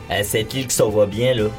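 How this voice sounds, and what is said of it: Put-on Quebec French accent. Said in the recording (French): “c'est un super accent ... québécois”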